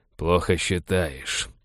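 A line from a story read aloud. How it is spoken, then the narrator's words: Through clenched teeth. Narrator (Russian): процедил Балфер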